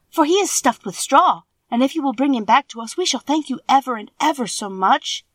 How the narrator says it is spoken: said Dorothy eagerly

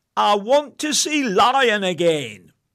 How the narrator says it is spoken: bellowed

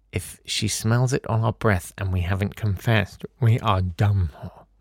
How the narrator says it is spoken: someone, sober enough to think logically, muttered

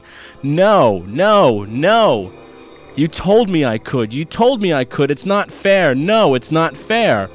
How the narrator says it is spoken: Johnny went white with rage, all the while shouting

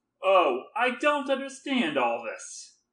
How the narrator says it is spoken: I cried impatiently

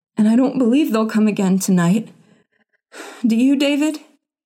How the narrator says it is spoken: she gasped

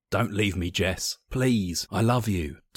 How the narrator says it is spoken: Tom gasped

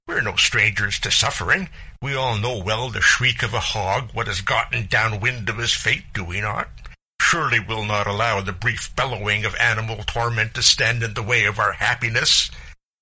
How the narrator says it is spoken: spat Farmer Bauer

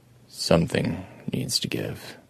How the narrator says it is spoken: Adam told it quietly

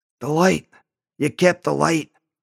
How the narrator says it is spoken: His voice was a rasp

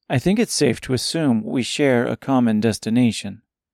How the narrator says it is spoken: replied Gracia

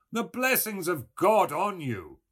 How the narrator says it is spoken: Buck Mulligan cried

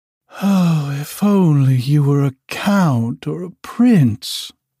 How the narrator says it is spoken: she sighed

